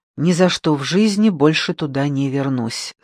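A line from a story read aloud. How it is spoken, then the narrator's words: Plain. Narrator (Russian): сказала я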